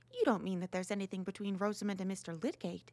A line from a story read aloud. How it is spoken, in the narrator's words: said Mrs